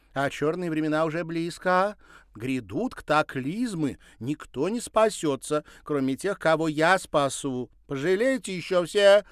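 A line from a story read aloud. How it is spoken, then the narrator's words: Shouting. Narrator (Russian): выкрикнула она напоследок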